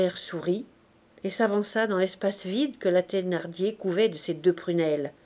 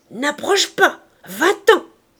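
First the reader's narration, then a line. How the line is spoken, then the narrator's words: Woman shouting. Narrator (French): cria-t-elle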